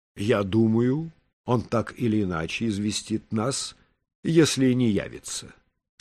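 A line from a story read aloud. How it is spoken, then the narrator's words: Plain. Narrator (Russian): сказал Качинский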